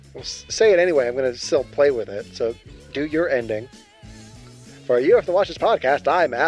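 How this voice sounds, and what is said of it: Usual voice. Nothing is said of it.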